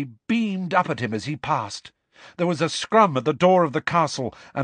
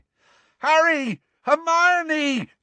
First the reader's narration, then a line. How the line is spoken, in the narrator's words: yelled Ron, looking quite beside himself